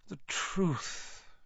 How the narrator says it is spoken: Dumbledore sighed

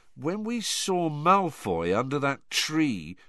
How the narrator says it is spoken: said Ron slowly

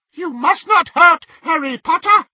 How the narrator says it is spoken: he squeaked

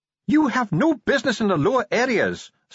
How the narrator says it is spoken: snapped Ardent

